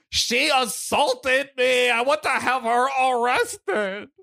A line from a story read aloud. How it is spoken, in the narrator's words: yelled